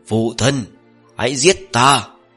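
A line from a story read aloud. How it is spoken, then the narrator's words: Laughing crying roar. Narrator (Vietnamese): Ông ta đang cười, đang khóc, đang hướng về phía bàn tay già nua kia phát ra tiếng gầm thét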